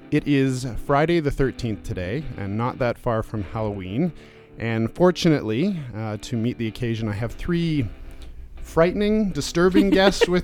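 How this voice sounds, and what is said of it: Sick, flu-ridden voice. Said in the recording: “you get the flu-ridden voice of myself”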